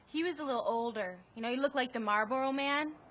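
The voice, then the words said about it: Strong regional American accent. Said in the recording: “You hear that accent there ... That is both, like, the worst accent in the world and also, like, one that I so wish that I had ... That's a real accent.”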